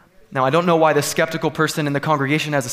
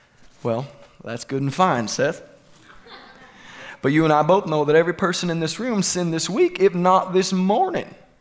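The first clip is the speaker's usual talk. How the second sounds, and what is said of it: Put-on southern US accent. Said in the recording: “has a southern accent or sounds like Bill Clinton”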